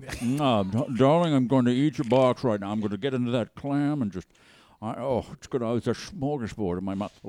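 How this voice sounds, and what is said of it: Imitates an old conservative man's voice. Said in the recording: “That's the best William F. Buckley... It was really spot on... That's a great impression... Was an old conservative... He sounded exactly like that.”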